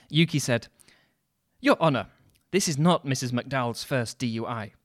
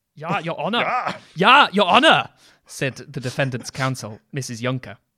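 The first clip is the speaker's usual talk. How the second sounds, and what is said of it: Shouted put-on German accent. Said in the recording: “German... That's just shouting, isn't it?... That's what a German accent is.”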